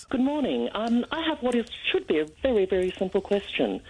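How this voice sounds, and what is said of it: Clipped English accent. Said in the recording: “I love the clipped accent.”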